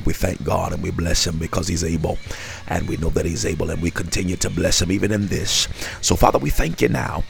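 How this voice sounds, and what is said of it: Sleepy, quiet preacher voice. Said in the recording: “this is my sleepy voice, you know. This is the quiet storm. But this is my sleepy preacher voice.”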